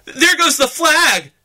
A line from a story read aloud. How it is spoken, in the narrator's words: shouted the Marines at the base of Suribachi